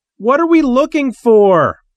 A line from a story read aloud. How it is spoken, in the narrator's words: Timmy Galahad yelled above the gunfire and roaring engines